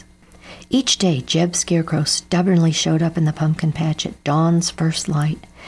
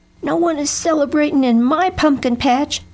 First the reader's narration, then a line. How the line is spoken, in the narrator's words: Jeb yelled at Bernie Crow